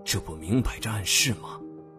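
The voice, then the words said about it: Speaking quietly, hushed. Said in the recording (Chinese): “小声道”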